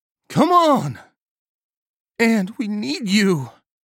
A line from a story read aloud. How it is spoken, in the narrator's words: Nagel said, her voice cracking with fear